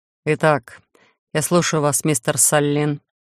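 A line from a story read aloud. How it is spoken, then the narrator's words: Gloomy pronouncement. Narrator (Russian): мрачно изрек Мак-Иш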